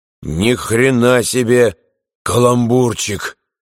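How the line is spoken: Hoarse. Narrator (Russian): хрипло сказал Берестин

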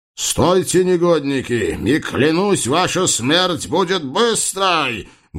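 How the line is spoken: Menacing noble's roar. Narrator (Russian): грозно взревел высокородный Шахмет

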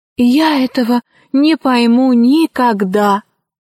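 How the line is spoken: Sighing. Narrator (Russian): вздохнул петушок

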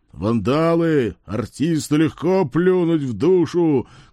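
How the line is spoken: Shouted from a distance. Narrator (Russian): крикнул с безопасного расстояния Борька

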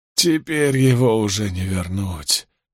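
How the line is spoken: Moan. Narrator (Russian): простонал он

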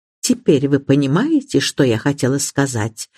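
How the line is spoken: Quiet. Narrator (Russian): негромко проговорила миссис Бантри

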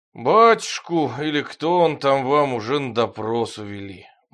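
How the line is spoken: Gloomy boatswain. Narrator (Russian): мрачно сказал боцман

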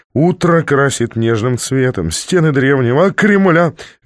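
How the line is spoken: Cheerful bawled singing. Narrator (Russian): весело прогорланил я

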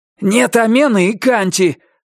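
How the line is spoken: Angry and frightened. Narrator (Russian): сказал он одновременно сердито и испуганно

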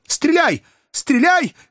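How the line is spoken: Shout. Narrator (Russian): крикнул доктор

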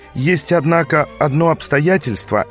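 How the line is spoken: Uncertain. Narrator (Russian): неуверенно добавил Гриффин

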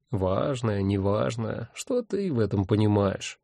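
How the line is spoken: Grumbling. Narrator (Russian): проворчал он

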